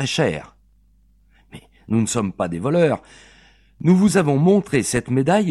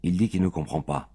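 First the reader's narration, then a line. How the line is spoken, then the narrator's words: Murmured. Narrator (French): m'a murmuré Claire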